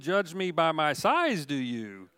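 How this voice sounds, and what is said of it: Yoda character voice imitation. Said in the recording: “Not a bad imitation myself, I think”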